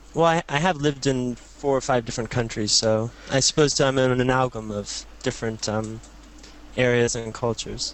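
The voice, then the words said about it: Mixed, unusual American accent. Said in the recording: “Tell by the accent. You hail from America... I had a weird American accent... You sound almost sort of multinationally cultured”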